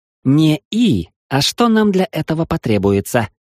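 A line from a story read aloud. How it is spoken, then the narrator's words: Gruff mumble. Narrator (Russian): буркнула та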